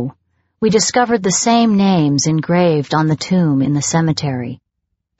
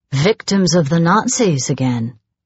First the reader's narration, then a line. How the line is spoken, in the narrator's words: muttered Bamber